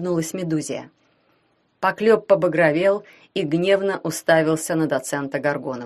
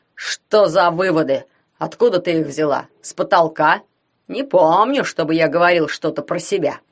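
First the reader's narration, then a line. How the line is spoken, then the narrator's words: Growl. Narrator (Russian): прорычал он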